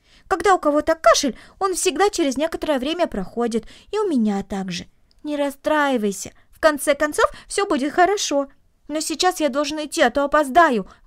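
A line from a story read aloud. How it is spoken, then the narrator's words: Exclamation. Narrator (Russian): воскликнул он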